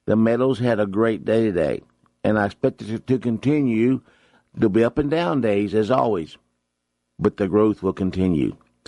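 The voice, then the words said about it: Voice affected by a cold. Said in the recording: “excuse my voice ... Still got a little bit of a cold.”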